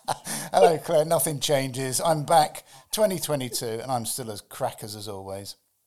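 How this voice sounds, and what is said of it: Strained, worn-out voice. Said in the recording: “As you can see, my voice has been, I've been speaking too much over Christmas”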